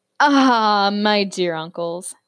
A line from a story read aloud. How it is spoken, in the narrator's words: Zeus chuckled